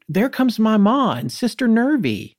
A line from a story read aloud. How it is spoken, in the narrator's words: When they were still far down the street, Rancy yelled